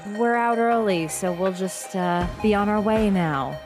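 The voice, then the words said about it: Weird, spooky put-on voice. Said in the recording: “the weird, spooky voice you're doing”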